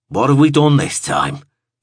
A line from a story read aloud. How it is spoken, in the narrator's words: grunted